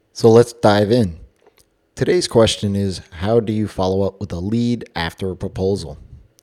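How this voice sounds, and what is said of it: Hoarse, strained voice. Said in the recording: “my voice sounds a little funny, it's because I am losing it”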